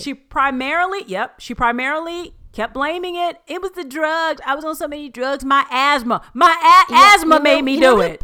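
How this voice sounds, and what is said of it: Angry yelling. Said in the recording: “I'm yelling into the mic. I'm so pissed.”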